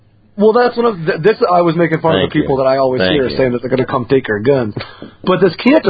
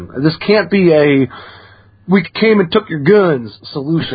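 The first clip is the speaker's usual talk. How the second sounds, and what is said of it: Put-on Southern accent. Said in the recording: “Why the southern accent there? Because you're a hillbilly from Connecticut.”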